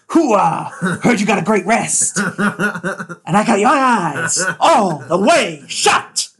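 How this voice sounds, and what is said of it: Imitates a famous actor's voice. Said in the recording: “I may have thrown out my vocal cords. Doing my Al Pacino impression.”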